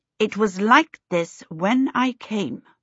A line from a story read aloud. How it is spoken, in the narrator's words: Charmaine said coldly